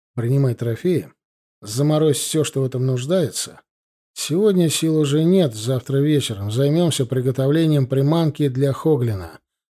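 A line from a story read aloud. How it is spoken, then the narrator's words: Tired. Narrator (Russian): устало сказал я ей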